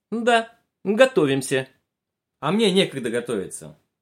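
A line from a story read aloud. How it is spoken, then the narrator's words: Angry, very stern. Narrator (Russian): сердито очень строго ответила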